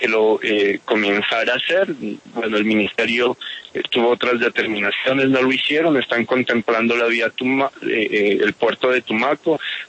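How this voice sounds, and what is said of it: Pasto Colombian Spanish accent. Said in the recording (Spanish): “Me llama la atención su acento. ... yo soy pastuso”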